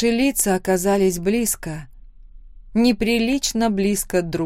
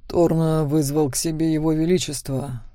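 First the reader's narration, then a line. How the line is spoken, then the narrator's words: Muffled, low. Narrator (Russian): глухо сказал Макс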